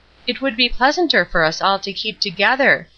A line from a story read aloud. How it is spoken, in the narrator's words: she began in a doubtful tone